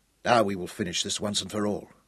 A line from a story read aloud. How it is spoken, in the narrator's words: he said grimly